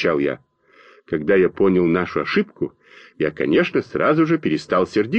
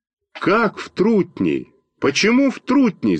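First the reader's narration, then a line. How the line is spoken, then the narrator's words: Frightened shout. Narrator (Russian): закричал Костя Малинин испуганным голосом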